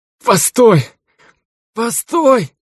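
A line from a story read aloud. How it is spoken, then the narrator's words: Groaning. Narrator (Russian): простонал Ржавый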